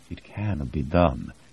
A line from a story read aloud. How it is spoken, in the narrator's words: DiNardo said quietly